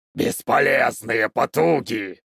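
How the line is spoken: Growled. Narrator (Russian): прорычал он

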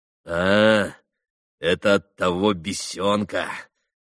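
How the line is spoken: Malicious laugh. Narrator (Russian): Рассмеялся он злобно

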